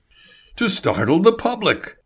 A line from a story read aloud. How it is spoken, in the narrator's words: Label cried